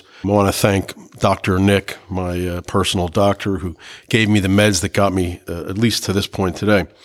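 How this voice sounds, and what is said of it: Sick, cold-affected voice. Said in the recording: “I've got a horrible cold today, so excuse my voice.”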